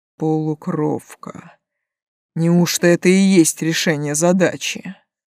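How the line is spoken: Musing mutter. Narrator (Russian): пробормотал он, рассуждая вслух

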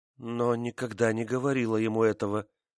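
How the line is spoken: Muttering. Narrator (Russian): бормотала

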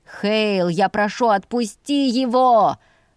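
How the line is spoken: Shouting. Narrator (Russian): прокричал Ульви

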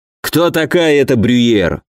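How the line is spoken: Irritated, curt. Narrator (Russian): раздраженно бросил генерал

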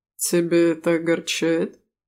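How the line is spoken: Snorting rector. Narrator (Russian): хмыкнул ректор

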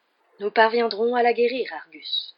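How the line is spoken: Patient reassurance. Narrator (French): assura Dumbledore d'un ton patient

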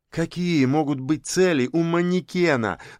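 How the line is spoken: Pleading. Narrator (Russian): взмолился Яшин

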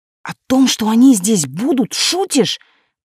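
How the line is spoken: Hushed hiss. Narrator (Russian): прошипела я, не желая, чтобы меня услышали

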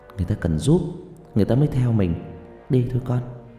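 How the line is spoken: Uneasy forced reassurance. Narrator (Vietnamese): Tôi cảm thấy tóc gáy tôi dựng cả lên, nhưng tôi vẫn cố mỉm cười trấn an

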